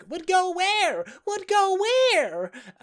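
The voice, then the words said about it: Imitates a cartoon toy character voice. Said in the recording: “good Rex impression”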